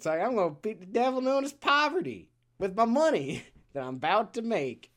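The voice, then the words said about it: Put-on cowboy accent. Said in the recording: “his very cowboy accent ... It's hilarious.”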